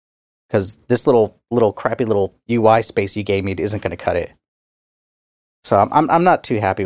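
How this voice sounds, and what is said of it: Usual voice. Nothing is said of it.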